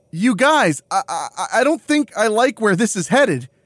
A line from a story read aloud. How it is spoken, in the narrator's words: Carter stammers